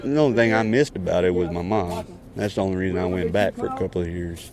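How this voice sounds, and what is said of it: Texan accent. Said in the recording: “My accent ... and where I'm from, born and raised. You Texas?”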